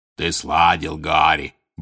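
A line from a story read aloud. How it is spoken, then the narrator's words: Deep booming voice. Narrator (Russian): басил Хагрид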